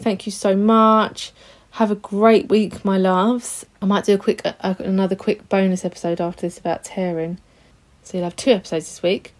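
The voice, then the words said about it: Hoarse, rough sore-throat voice. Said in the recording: “I sound really weird... I've got this really sore throat... it might have sounded a bit jaggedy”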